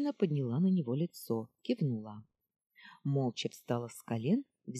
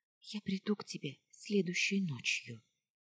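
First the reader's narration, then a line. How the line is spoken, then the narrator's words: Whispering. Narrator (Russian): шепнула она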